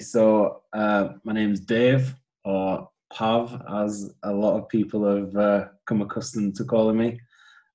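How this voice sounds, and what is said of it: Northern English accent, partly Geordie. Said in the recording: “my accent is not full Geordie accent. I am originally from Huddersfield, which is on the borders of West Yorkshire and Lancashire. I lived in Newcastle since 99”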